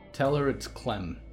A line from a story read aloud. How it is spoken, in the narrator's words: she said